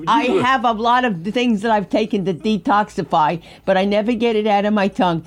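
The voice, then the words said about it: Brooklyn New York accent. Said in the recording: “if you're born in Brooklyn and you're raised in New York ... you never get quite get that out of your tongue ... The Brooklyn accent ... I know the Brooklyn accent, honey. I've lived with it for the past 60 years.”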